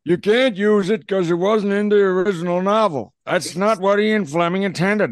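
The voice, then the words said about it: Impression resembling a Godfather-style voice. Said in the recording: “my Cubby Broccoli impression, and it kind of just sounds like Brando in The Godfather”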